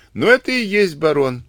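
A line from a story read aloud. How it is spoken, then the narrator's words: Laughing. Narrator (Russian): засмеялся Сивицкий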